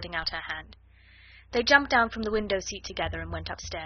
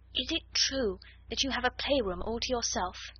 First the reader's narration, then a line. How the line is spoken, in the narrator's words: Ermengarde whispered